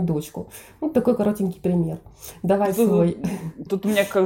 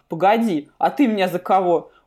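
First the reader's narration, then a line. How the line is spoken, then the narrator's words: Indignant snort. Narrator (Russian): Он возмущенно фыркнул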